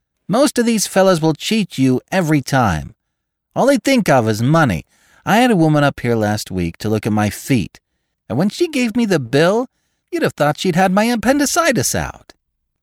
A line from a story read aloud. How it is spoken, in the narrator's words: told in a high, mincing shout